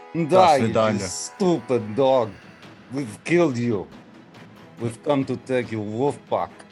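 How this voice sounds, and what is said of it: Put-on Russian accent. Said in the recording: “Valadier's accent ... It's Russian.”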